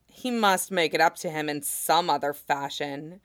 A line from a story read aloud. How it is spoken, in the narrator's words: Jin Zixin said with a sneer